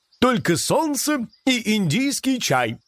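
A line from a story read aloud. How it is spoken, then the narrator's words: Joyful announcement. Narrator (Russian): радостно сообщил лосяш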